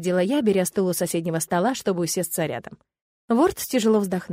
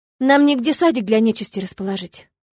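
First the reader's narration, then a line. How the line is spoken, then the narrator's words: Sighing. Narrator (Russian): вздохнула я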